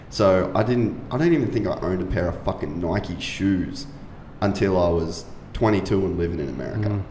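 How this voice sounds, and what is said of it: Australian accent. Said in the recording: “an Australian accent that everyone wants to fucking hang out with because girls like the way he talks”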